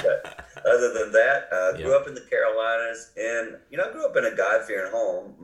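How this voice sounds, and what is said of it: Carolina accent, congested from cold. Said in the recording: “you can tell by my accent. Today I have a cold, so I have a Carolina cold accent”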